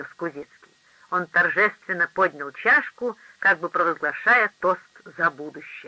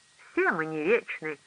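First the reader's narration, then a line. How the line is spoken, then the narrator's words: Sighing. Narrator (Russian): вздохнул Генри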